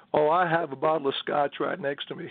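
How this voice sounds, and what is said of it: Imitates another person's voice. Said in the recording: “President Bill Clinton is on the line”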